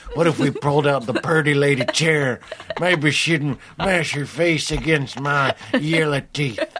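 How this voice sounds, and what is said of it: Mixed Native American and Western voice. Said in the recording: “what was that voice? I've never done that voice before. It was kind of Native American, but it was also kind of a Western guy.”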